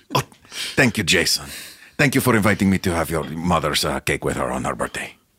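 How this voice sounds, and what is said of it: Australian accent. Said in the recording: “a foreign exchange student from Australia... Your Australian accent is so beautiful”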